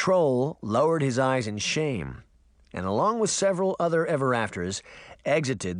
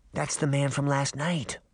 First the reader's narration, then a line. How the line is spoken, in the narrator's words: she whispered